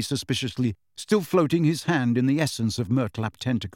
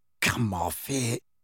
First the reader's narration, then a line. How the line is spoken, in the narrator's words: groaned Ron